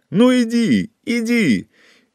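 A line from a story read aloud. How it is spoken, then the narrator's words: Shouting against fierce wind. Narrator (Russian): кричал Павел, а ветер подхватывал его слова и свирепо втискивал их обратно в его горло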